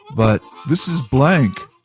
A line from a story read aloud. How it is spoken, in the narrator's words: Durgle said